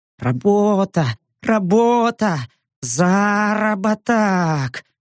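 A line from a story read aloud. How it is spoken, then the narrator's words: Almost moaning. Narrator (Russian): Чуть ли не стонал пятый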